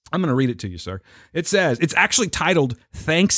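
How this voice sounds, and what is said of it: Usual voice. Nothing is said of it.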